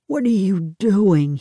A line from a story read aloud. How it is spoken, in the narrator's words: Hugh moaned